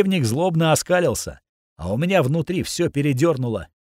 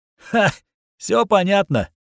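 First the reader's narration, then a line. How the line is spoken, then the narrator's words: Said mockingly. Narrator (Russian): насмешливо сказал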